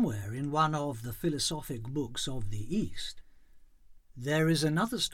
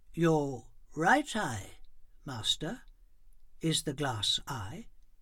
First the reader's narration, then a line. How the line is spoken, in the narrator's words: The beggar said solemnly